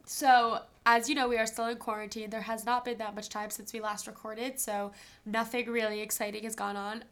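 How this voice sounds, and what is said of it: Congested, stuffy-nosed voice. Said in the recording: “my nose has been stuffed for like two months straight. I don't actually sound like this.”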